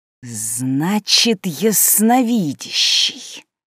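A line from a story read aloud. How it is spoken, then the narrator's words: Angry hiss. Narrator (Russian): зло прошипела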